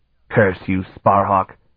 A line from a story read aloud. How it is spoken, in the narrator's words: Belton spat